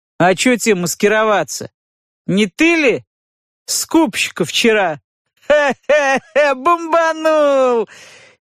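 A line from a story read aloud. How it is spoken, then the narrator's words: Hearty guffawing laughter. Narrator (Russian): Петруха смачно захохотал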